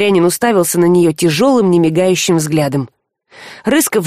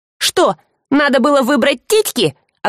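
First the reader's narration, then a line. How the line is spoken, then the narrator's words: Exasperated snapping. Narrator (Russian): огрызнулась девушка, тоже доведенная до белого коленя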